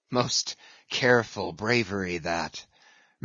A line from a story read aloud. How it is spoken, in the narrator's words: murmured Ahab